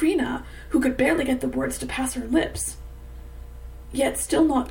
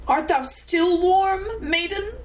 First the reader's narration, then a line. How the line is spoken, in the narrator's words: The great voice cried out once again